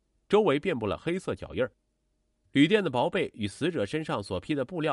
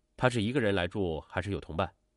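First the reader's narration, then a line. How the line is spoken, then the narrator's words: Plain. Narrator (Chinese): 民警问道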